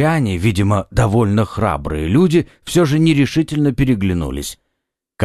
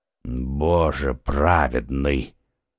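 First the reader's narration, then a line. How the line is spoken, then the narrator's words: Muffled voice from below. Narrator (Russian): глухо прозвучал снизу голос Атоса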